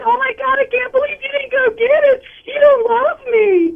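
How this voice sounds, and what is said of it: Imitates an upset girlfriend. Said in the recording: “That was a good impression... You have the girl.”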